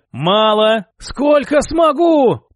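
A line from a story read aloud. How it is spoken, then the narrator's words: Hoarse wheeze. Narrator (Russian): Просипел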